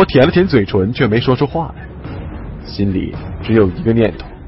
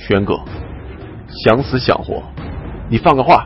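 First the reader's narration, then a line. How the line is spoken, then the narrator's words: Through gritted teeth. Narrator (Chinese): 咬牙切齿的说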